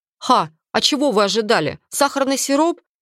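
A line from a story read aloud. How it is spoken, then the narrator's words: Condescending snort. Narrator (Russian): снисходительно хмыкнул господин Гарриет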